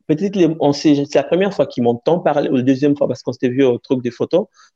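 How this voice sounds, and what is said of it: Noticeable accent, clear articulation. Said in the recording (French): “mon accent, j'ai un accent ... je sais que j'ai un accent ... t'as un accent, mais t'articules bien”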